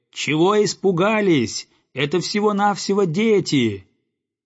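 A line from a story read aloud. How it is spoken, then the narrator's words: Shouting after them. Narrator (Russian): закричал им вслед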